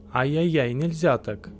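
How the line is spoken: Playful scolding. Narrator (Russian): погрозил хохотуша

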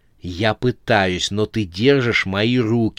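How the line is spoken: Hissing. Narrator (Russian): зашипела на него Анжела

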